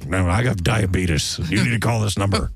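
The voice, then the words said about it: Imitates another person's voice. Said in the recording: “You enjoying my Wilford Brimley impression?”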